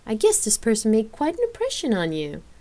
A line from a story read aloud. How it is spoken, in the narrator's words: Elaine asked with a chuckle